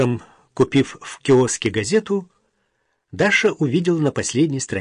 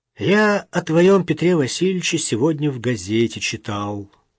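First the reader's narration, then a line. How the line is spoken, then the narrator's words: Sad. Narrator (Russian): грустно сказал ей вечером Максим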